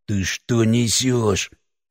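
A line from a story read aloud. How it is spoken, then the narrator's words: Hissed through teeth. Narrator (Russian): прошипел Алексей сквозь зубы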